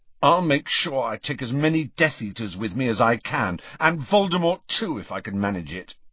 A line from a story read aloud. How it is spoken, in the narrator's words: he said fiercely